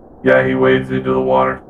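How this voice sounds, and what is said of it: Quiet, hard-to-understand put-on voice. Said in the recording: “so far away, I couldn't understand him ... talk in your normal voice ... it's hard to hear you”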